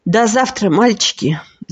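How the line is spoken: Sigh. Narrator (Russian): вздохнула Вика

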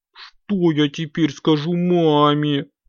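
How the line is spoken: Whimpered. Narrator (Russian): захныкал Компот

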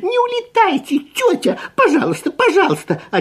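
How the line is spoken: Desperate squeak. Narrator (Russian): отчаянно пискнул Фип

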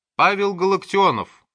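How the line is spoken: Shouting. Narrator (Russian): крикнул доктор

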